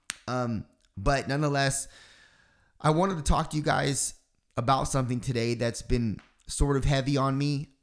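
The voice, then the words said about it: Crackly voice, sounds unwell. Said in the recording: “I still am sort of under the weather ... my voice is still crackling or if I end up coughing”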